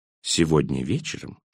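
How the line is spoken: Whispered. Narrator (Russian): шепнул он

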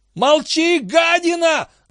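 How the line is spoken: Angry shout. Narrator (Russian): заорал Бозман

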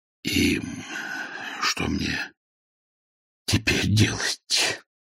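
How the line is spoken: Nervous whisper. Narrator (Russian): прошептал он, поскольку эти ряды обеспокоенных полуулыбок заставляли нервничать его самого

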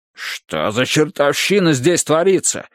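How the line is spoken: Exclamation. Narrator (Russian): воскликнул он

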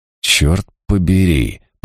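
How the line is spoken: Annoyed muttering. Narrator (Russian): пробормотала себе под нос, раздосадованный тем, что не могу сбросить со счетов возможность вторжения извне

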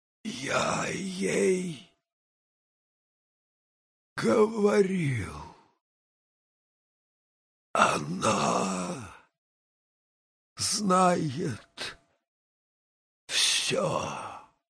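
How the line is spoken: Whisper. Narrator (Russian): прошептала

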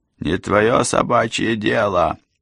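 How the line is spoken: Rude, gruff. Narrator (Russian): грубо ответил Эндрюс

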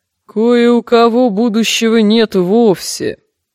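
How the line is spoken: Scary low mumble. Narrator (Russian): страшным низким голосом пробубнила Манги

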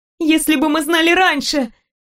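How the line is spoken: Shout. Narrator (Russian): закричала я

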